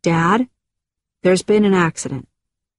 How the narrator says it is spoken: calmly said

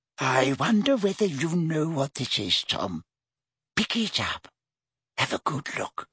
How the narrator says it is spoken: whispered Hepzibah

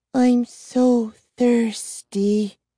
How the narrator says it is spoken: she sighed

